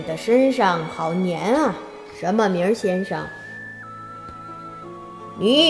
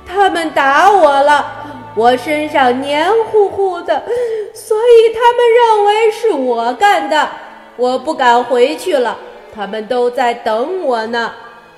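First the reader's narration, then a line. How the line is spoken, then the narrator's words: Crying. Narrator (Chinese): 月亮脸哭着说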